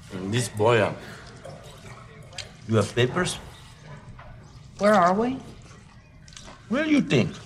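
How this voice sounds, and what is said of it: Foreign accent. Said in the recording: “your accent”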